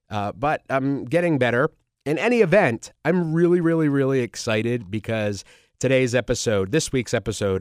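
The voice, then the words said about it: Nasal, congested voice. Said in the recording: “I am still feeling under the weather, so I apologize for my, nasally voice and weird voice.”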